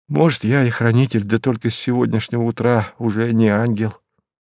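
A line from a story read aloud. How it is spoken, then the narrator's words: Embarrassed sad voice. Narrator (Russian): смутился он, печально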